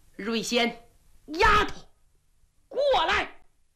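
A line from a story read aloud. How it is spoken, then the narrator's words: Breathless old man shouting. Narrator (Chinese): 老王爷完颜寿气喘吁吁，高声喊喝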